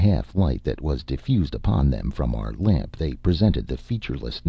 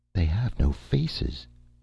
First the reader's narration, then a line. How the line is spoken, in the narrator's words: she whispered